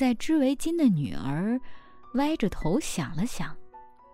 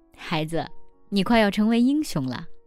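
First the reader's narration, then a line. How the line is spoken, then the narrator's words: Joking. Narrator (Chinese): 我开玩笑地对女儿说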